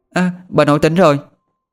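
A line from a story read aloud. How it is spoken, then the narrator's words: Sleepy child's exclamation. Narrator (Vietnamese): Con bé Thư cũng dụi dụi mắt, nó kêu lên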